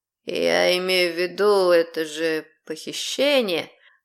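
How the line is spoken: Lazy, reluctant drawl. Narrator (Russian): Лениво, словно не желая расставаться со словами, добавил он

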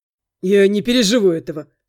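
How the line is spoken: Wry snort. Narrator (Russian): хмыкнул Андрей

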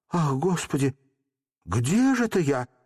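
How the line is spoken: Exclaimed. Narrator (Russian): воскликнула она

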